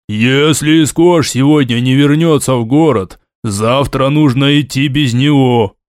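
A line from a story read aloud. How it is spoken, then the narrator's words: Deep bass assertion. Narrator (Russian): утверждал один из спорщиков, обладавший густым басом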